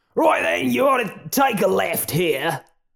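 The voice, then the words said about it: Exaggerated, not quite accurate put-on accent. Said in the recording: “I'm an offensive stereotype... Even if my accent isn't quite accurate.”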